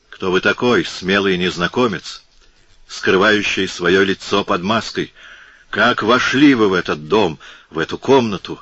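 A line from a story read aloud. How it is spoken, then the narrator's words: Trembling angry shout. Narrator (Russian): закричал он, дрожа от злости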